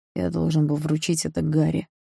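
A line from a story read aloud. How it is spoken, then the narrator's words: Grumbling. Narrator (Russian): проворчал он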